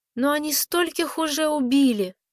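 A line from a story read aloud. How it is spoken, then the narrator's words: Little girl's sudden sob. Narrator (Russian): Внезапно малышка всхлипнула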